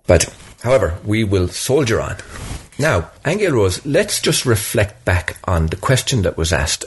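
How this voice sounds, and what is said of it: Voice sounds unwell. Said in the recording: “a little bit under the weather ... I am a little under the weather. You might hear it in my voice.”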